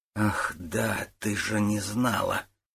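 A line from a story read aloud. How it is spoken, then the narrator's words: Whispered. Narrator (Russian): прошептала Людмила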